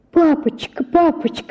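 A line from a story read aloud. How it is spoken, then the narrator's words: Pleading scream. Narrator (Russian): закричала я, бросаясь на колени и умоляя его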